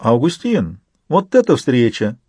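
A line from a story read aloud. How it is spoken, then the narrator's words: Exclamation. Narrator (Russian): воскликнула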